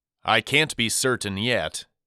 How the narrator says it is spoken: he answered

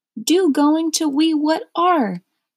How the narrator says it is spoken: exclaimed

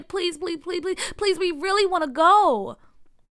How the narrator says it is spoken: Bria pleaded

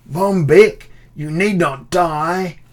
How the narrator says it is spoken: shouted my thin-lipped hounder of dukes

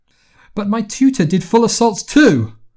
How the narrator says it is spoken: Her voice started to rise

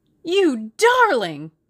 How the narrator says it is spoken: cried Tommy

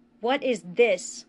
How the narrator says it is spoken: a voice thundered

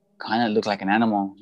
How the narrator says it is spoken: he murmured

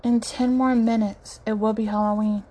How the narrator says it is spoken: Emoji says sadly

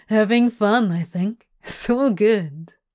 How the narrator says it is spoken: Crowley said with an amused chuckle

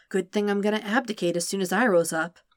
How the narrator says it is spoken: Sokka whispers back

